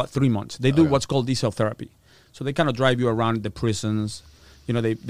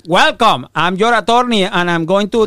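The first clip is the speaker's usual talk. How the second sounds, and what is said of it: Imitates another person's accented voice. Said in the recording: “if you think I have an accent, my attorney was like Ricky Ricardo”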